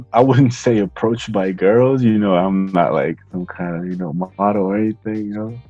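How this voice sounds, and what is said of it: Slight Bulgarian accent. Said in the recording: “coming in from Bulgaria, you got a little accent ... I am from Bulgaria, I do have an accent”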